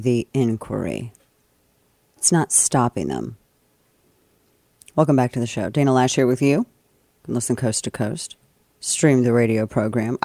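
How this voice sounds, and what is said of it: Hoarse, husky voice. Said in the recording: “I sound like Sugar Bear today. I think it's allergies. I'm fighting a little bit of laryngitis”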